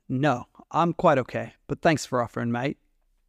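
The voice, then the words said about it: Strong, thick Australian accent. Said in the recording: “he's got a strong, thick accent... I'm here from Sydney, Australia”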